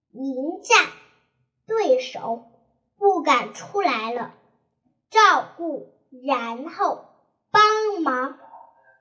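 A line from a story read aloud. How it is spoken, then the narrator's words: Loud shout. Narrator (Chinese): 高声叫道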